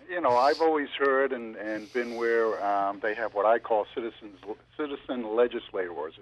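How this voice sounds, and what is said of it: Boston accent. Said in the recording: “I have a Boston accent.”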